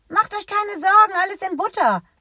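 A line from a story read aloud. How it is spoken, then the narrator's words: Calling out. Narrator (German): ruft Isabella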